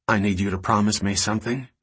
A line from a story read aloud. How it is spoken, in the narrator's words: she said